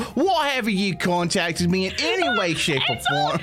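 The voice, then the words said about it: Put-on Australian accent. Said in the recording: “My accent's been changing ... Say again, my Australian mother! ... She has the shifting accent curse.”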